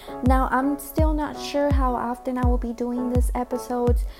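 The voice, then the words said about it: Mexican Spanish accent in English. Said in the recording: “I am Mexican. My primary language is Spanish, so forgive my accent”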